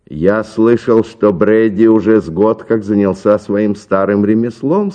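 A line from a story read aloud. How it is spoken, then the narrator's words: Plain. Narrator (Russian): сказал сыщик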